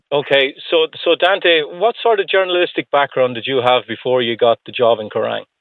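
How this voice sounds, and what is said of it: Irish accent. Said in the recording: “I'm from Ireland, though. You can probably guess from my accent.”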